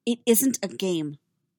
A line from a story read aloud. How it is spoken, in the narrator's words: Padme said sharply